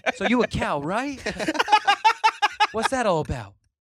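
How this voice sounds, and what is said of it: Imitates another person's voice. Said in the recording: “That's actually a really good impression. ... That's pretty solid. ... That's an impression of a guy doing an impression of Mark Wahlberg.”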